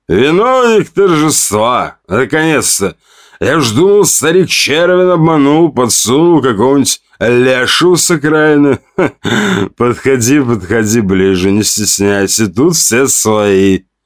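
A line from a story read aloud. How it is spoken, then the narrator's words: Loud hoarse unpleasant laugh. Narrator (Russian): Он засмеялся громко, с неприятной хрипотцой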